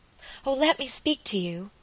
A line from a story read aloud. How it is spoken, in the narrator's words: she cried